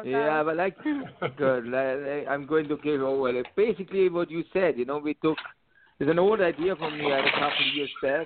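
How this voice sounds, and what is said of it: Speaks with a foreign accent. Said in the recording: “I love your accent.”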